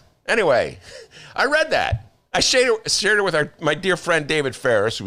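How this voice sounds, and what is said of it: Usual voice. Nothing is said of it.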